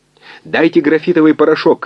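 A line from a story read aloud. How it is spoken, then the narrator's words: Shout. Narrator (Russian): крикнул он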